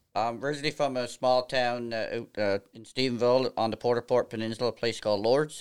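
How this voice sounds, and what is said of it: East coast Canadian accent. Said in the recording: “You have a distinctly different accent, which is on the east coast of Canada.”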